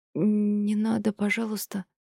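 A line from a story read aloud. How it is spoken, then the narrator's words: Trembling pleading voice. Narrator (Russian): дрожащим голосом попросила его жена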